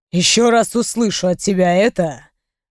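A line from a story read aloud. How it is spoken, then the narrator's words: Menacing growl. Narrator (Russian): грозно прорычал мой мужчина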